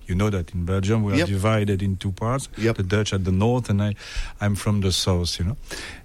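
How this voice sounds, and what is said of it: Slight French-speaking Belgian accent. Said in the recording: “I can pick up a little bit of an accent. ... I'm from Belgium ... I'm in the French-speaking part of Belgium”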